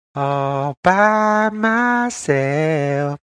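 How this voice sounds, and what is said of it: Sung in falsetto. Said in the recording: “Falsetto, baby.”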